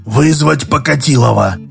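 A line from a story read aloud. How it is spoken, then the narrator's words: Hoarse whispered order. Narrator (Russian): сиплым шепотом приказал Краюхин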